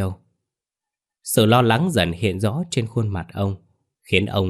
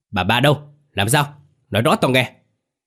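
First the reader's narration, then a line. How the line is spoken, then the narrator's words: Loud shout. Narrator (Vietnamese): Ông bá nghe không rõ quát to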